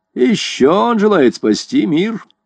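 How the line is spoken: Mocking. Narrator (Russian): насмешливо сказал Невилл

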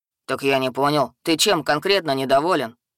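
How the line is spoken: Troll's snort. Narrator (Russian): хмыкнул тролль

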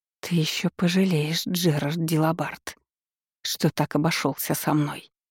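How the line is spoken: Angry hiss. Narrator (Russian): Прошипела

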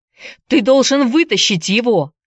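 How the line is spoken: Shouted. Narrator (Russian): закричал Энди

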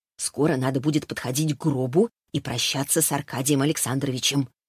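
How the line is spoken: Woman whispering. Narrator (Russian): шепнула женщина

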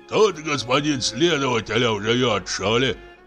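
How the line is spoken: Hoarse. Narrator (Russian): хрипит голова

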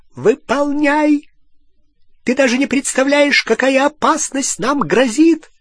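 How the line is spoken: Shrieked. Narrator (Russian): завизжала Беллатриса

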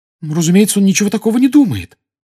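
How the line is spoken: Agitated exclamation. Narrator (Russian): с волнением воскликнула Гермиона

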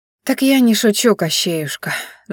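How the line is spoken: Sigh. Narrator (Russian): вздохнула она

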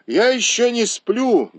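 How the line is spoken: Loud speech. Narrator (Russian): громко сказал он

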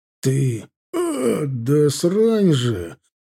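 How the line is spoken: Through gritted teeth. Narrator (Russian): процедил Милар

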